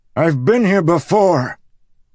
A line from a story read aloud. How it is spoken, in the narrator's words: Kaladin bellowed